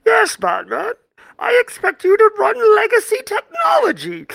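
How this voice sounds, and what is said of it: Imitates Bane's villain voice. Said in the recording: “my best Bane Batman impression.”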